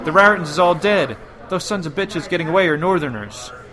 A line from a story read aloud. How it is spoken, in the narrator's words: He cried out to Charlie